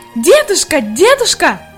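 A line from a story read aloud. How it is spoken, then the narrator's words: Shouting with all her might. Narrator (Russian): Изо всех сил кричала Хайди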